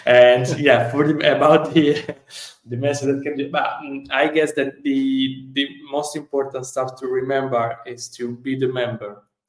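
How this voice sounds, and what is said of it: Italian-accented English. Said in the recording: “my Italian accent”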